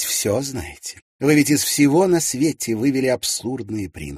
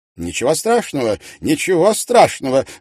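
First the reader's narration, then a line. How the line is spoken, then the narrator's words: Exclaimed. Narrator (Russian): воскликнул он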